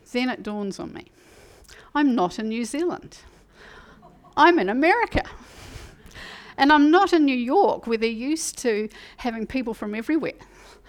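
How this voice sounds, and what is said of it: New Zealand accent. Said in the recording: “my Kiwi accent. My Kiwi accent.”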